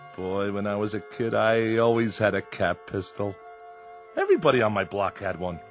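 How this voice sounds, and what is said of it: Usual voice. Nothing is said of it.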